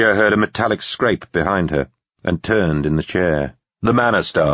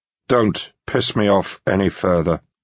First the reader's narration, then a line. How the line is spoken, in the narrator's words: Walshaw said in a tired voice